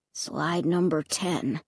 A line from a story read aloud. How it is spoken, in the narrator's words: Luke murmured